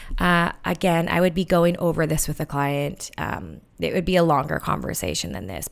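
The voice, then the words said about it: Slightly scratchy voice. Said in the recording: “my voice is still a little bit scratchy”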